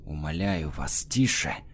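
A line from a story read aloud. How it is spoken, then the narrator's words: Urgent hiss. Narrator (Russian): зашипел он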